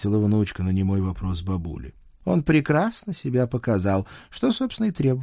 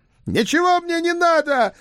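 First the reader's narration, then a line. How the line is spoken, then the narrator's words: Furious yelling. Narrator (Russian): В бешенстве заорал завидный жених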